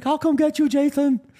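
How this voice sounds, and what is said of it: Impression of a friend's voice. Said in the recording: “that's a good impression”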